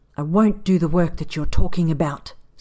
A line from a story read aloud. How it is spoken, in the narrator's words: Saad hisses